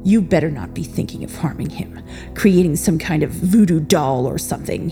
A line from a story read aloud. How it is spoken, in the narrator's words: he said through gritted teeth